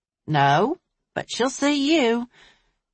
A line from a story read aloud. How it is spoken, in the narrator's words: Desiree said